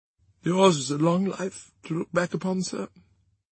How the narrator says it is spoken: said Carton, wistfully

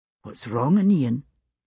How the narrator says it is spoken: he whispered to me

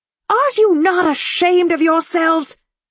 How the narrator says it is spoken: she bellowed at them

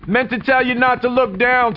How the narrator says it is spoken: TJ shouted with a smile

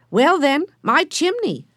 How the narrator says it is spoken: shouted Benny

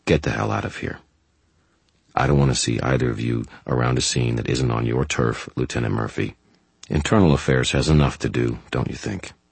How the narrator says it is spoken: said in a calm voice

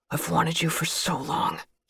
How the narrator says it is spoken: he hissed

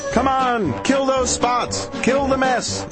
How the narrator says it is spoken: yelled the cats

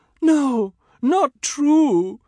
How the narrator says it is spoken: my Padma wails

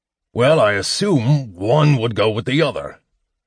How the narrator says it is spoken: Flint growled

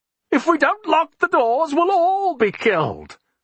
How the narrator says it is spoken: Alexander screeched hysterically

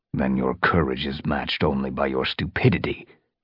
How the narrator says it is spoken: growled Tigerstar

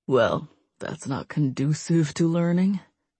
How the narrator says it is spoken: David said under his breath

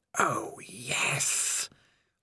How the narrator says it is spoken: whispered the voice of Spider

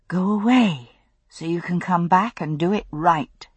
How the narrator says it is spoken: she murmured

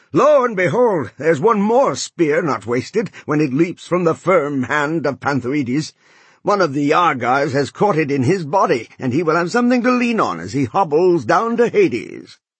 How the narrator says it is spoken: Polydamas shouted loud in triumph

